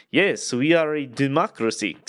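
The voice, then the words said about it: Bad put-on Russian accent. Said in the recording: “that's a really bad Russian accent.”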